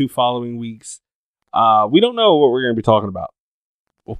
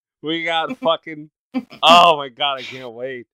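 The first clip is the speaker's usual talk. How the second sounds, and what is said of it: Excited, giddy voice. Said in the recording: “you can hear the excitement in his voice ... a giddy schoolgirl”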